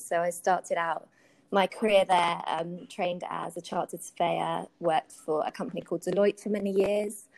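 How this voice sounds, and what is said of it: British English accent. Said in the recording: “You might be able to tell from my accent, I'm originally from the UK.”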